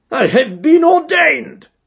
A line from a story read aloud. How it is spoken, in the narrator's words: cried the old rascal